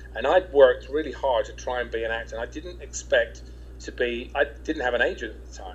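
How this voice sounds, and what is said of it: English accent. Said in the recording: “talking with an English accent”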